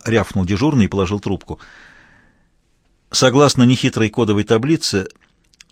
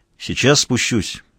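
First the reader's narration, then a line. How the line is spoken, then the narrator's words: Plain. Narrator (Russian): сказал Мазур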